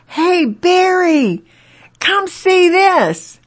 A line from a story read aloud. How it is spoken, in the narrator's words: yelling out to his friend, he says